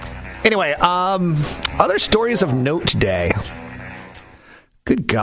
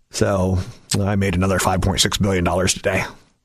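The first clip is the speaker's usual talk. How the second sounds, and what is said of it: Imitates another person's voice. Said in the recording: “my Jeff Bezos impression.”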